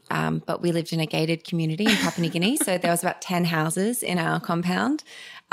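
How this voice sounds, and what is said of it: Australian accent. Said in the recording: “people have heard your accent. You are from Australia.”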